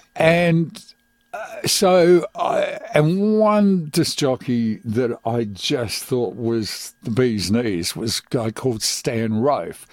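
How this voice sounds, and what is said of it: Strong Australian accent. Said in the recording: “I immediately developed quite a strong Australian accent, which people say even to this day.”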